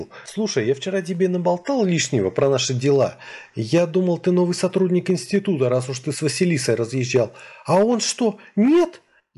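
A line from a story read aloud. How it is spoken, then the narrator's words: Frightened squeak from leaves. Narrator (Russian): Испуганно пискнули из листвы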